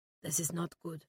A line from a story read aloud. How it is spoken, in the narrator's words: muttered Flores